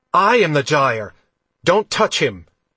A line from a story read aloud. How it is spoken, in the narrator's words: Logan shouted